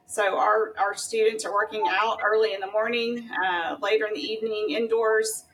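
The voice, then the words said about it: Texas accent. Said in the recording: “you clearly are from Texas. You have the accent.”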